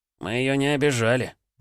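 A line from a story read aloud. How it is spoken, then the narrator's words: Grumbling. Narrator (Russian): проворчал Петруха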